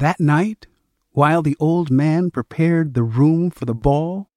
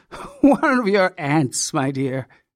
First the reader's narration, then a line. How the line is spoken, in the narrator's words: he chuckled